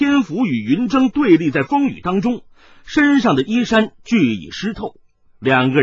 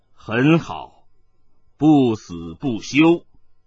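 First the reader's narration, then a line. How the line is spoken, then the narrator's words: Deep, grave voice. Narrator (Chinese): 艾天福沉声说道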